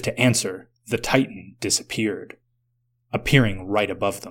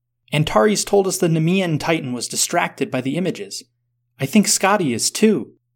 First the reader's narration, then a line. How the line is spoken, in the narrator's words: Sveta called out